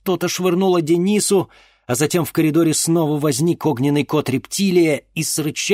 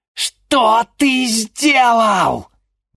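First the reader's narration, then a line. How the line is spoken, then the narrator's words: Confused hiss, old woman. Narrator (Russian): непонимающе прошипела старуха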